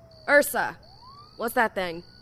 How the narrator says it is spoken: Kara called out

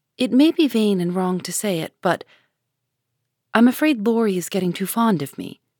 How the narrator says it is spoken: Joe said slowly with a sudden color in her cheeks

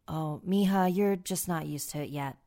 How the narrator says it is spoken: my dad said

